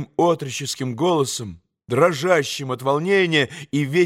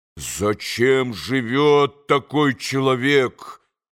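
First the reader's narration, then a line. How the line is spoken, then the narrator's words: Muffled furious growl. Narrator (Russian): глухо прорычал Дмитрий Федорович, почти уже в иступлении от гнева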